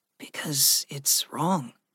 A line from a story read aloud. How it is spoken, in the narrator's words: Gregory said softly